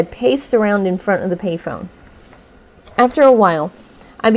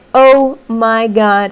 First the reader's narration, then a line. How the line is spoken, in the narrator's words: began to laugh and exclaim